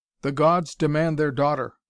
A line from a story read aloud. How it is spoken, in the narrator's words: cried Heracles in parting